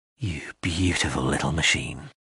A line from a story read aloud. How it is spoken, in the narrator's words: he breathed